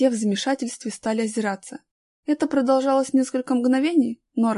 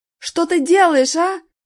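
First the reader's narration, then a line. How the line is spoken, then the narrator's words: Startled shout. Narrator (Russian): закричал иностранец, опомнившись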